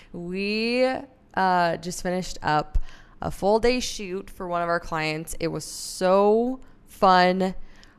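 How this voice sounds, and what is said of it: Tired-sounding voice. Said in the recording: “I'm a little tired. I don't know if you can hear it in my voice.”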